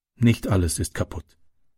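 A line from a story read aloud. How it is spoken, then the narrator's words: Plain. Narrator (German): sagte sie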